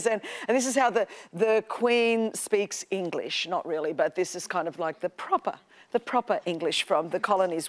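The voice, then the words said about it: Australian accent. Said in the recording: “You all know that I'm from Australia, in case you wondered what this accent is, y'all. This is what the accent is.”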